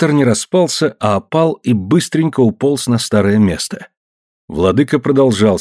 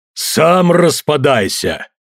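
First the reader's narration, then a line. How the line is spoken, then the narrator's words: Barking shout. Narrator (Russian): рявкнул великий разрушитель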